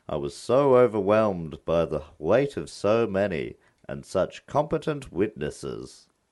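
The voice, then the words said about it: Impression of medieval chronicler William of Newburgh. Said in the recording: “It's a very good impression. ... That's exactly how he sounds. ... It's a great impression of someone we can never, ever hear what they sound like.”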